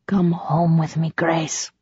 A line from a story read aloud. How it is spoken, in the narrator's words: he whispered in her ear